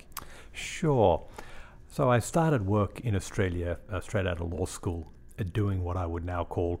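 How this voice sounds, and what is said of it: Australian accent. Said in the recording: “as you can hear probably from the accent, ... is a fellow Australian”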